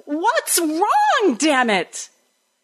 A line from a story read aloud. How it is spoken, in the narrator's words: until I was shouting